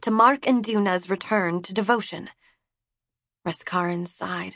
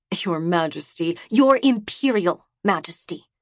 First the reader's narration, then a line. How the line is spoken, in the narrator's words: she spat at him